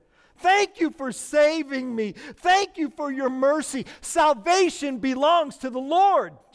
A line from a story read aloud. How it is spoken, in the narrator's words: Jonah called out to the Lord